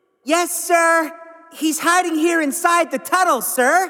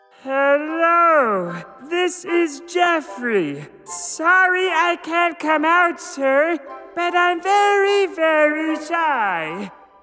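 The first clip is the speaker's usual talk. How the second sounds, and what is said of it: Silly put-on character voice. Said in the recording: “put on a silly voice”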